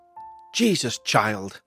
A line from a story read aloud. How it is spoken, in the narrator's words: she exclaimed, clutching at her chest